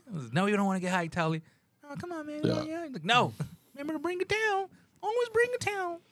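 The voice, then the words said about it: Imitates another person's voice. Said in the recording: “Do Tally's voice? ... Close to Herbert from Family Guy?”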